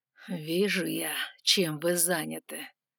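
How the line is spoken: Purring dragon. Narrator (Russian): мурлыкнул дракон

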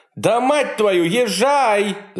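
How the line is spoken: Shouted. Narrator (Russian): закричала

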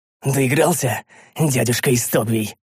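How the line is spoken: Hoarse, pained question. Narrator (Russian): Хрипло осведомился я, чувствуя, как в моей брюшине ворочается лезвие меча

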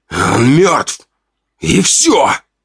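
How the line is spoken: Hissed. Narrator (Russian): прошипел Ранд

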